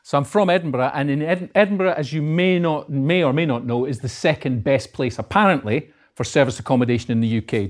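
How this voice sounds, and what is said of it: Scottish Edinburgh accent. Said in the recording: “I'm from Edinburgh. As you can probably tell, but my accent is uh, north of the border.”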